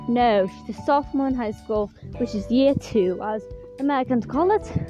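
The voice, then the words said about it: British accent. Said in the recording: “why I have a British accent when I grew up in Tennessee”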